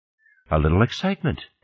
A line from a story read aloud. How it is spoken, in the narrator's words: Fernandez said calmly